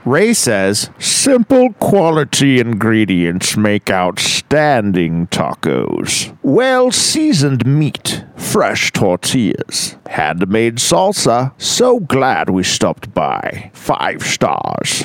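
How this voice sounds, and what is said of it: English accent, somewhat like Sean Connery. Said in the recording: “can you do an English accent? ... That was kind of a little bit of a Sean Connery almost ... That was really good.”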